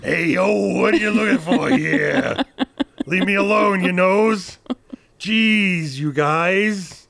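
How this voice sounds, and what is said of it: Accented imitation of another person's voice. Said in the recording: “my Natasha Lyonne impression. That has an accent. ... I did a flawless. ... Natasha Lyonne.”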